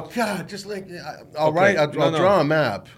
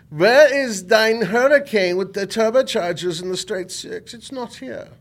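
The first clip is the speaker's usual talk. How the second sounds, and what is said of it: Put-on German accent. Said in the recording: “Why are you using a German accent?”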